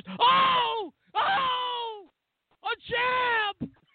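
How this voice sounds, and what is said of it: Excited impression of announcer Joe Tessitore. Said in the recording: “ESPN, Joe Tessitore, the lead announcer... He's trying to be like a Marv Albert or something... his voice is the most lifted”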